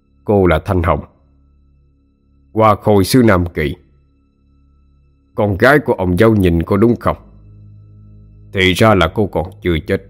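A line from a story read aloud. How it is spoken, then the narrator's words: Stern questioning. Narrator (Vietnamese): Ông hội đồng vẻ mặt nghiêm nghị, hỏi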